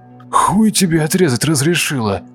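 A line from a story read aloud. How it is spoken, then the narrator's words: Wheezing, choking. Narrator (Russian): просипел Кирилл, пытаясь выкашлять рвоту из горла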